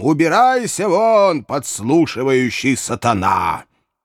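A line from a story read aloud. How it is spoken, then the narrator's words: Thunderous shout. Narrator (Russian): господин Сваммер закричал громовым голосом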